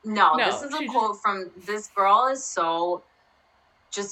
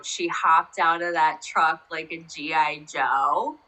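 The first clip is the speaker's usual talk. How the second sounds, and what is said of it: Put-on Southern accent. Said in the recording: “Southern accent.”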